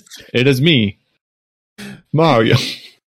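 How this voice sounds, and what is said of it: Imitates a Mario character voice. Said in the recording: “impersonate Chris Pratt impersonating Mario”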